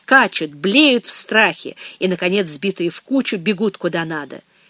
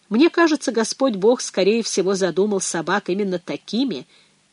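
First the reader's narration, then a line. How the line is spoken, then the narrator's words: Soft, priest's voice. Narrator (Russian): мягко возродил отец Ральф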